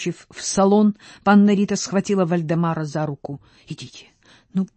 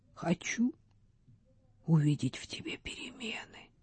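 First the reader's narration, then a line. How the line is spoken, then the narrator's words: Whisper. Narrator (Russian): прошептала княгиня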